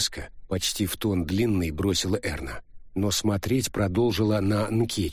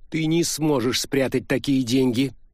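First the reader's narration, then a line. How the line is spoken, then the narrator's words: Loud. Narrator (Russian): громко произнесла Уити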